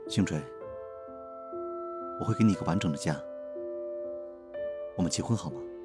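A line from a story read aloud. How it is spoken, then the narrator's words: Earnest, low voice. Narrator (Chinese): 沉默许久的刘雨安认真的……低声说道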